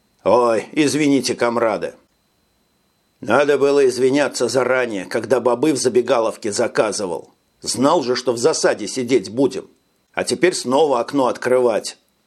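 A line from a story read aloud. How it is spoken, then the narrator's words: Grumbling. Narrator (Russian): пробурчал Лерой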